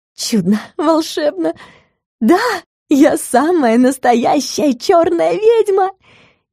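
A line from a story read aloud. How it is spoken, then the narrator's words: Full-throated scream. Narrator (Russian): Не сдержалась и закричала во все горло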